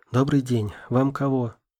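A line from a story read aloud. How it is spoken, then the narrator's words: Tired. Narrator (Russian): Устало проговорила она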